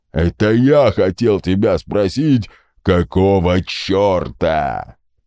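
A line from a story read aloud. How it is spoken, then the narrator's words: General's booming rumble. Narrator (Russian): прогудел генерал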